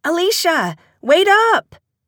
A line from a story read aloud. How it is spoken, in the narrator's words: Christine shouted to be heard over the pulsing music